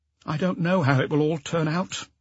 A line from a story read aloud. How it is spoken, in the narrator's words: she continued after a sigh